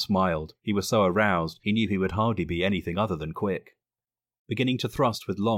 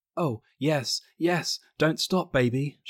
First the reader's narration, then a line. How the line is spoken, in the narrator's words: she gasped breathlessly